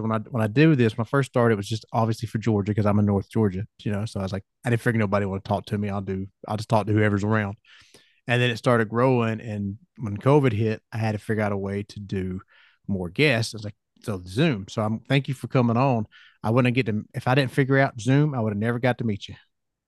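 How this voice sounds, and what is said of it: Southern US accent. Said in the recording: “you can tell I'm Southern because you can hear it in my accent ... get the Nashville type of vibe with like the accent”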